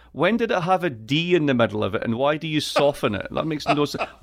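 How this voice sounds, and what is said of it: Scottish accent, east coast. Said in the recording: “I am from Scotland. I am from the east coast of Scotland. I have an accent which is just absolutely perfect”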